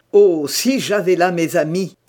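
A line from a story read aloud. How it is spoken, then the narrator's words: Exclaiming. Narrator (French): s'écriait-il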